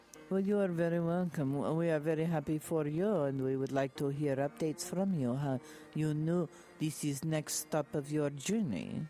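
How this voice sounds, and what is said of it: Put-on foreign accent. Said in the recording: “I love that accent.”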